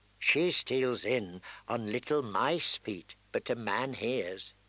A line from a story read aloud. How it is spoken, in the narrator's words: said